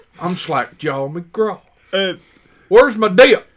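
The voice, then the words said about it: Country bumpkin character voice. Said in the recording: “We need a country bumpkin ... I'm Slackjaw McGraw. I could do the voice.”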